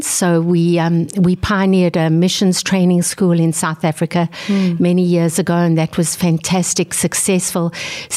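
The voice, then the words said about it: South African accent. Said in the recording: “The accent is definitely not North Dakotan. So the accent is South African.”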